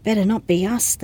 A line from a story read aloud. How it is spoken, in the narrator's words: said under her breath